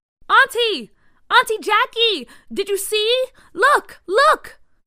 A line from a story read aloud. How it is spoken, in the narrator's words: Bria yelled from the front of the yard